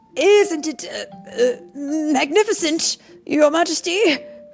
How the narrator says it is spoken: cried

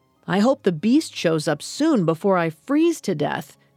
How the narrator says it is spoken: he shouted, only half joking

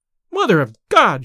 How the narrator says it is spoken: she cried

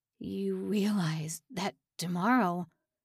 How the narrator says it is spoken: all he could manage to stammer was

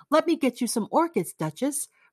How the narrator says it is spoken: cried Dorian

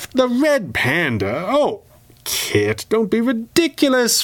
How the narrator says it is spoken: Fenwick scoffed

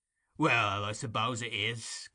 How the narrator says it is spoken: growled Sikes

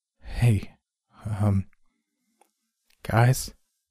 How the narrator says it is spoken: Taylor whispered behind us

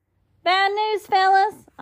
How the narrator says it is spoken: I hollered very loud

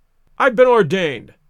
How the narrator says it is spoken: cried the old rascal

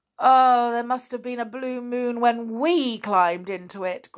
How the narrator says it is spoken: groaned Joe

